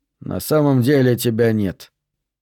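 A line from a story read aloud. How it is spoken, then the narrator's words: Calm. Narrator (Russian): спокойно сказал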